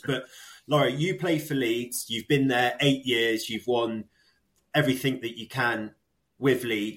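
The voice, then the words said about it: Manchester accent. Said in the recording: “our Manc accent”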